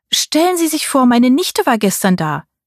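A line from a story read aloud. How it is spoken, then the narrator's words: Cheerful call. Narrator (German): rief Tantchen mir fröhlich zu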